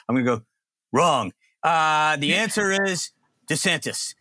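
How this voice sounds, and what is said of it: John McLaughlin impression. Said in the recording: “I'm gonna play my John McLaughlin impression”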